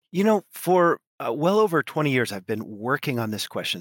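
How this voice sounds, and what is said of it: American West Coast accent. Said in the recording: “As you can hear from my accent, I'm not originally French. I grew up on the west coast of the U.S.”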